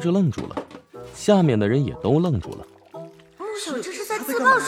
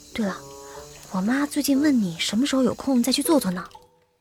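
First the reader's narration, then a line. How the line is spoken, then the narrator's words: Soft. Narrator (Chinese): 穆小…轻声说道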